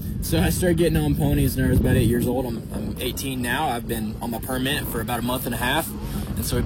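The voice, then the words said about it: Texan accent. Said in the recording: “I would have never guessed that with the accent.”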